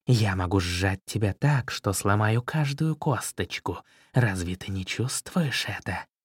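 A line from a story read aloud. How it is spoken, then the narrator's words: Serpent hissing. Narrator (Russian): Черный змей прошипел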